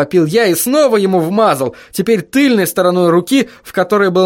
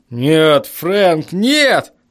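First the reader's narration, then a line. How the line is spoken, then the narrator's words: Strained, forced out. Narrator (Russian): выдавил он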